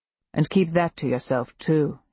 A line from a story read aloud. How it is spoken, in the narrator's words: he says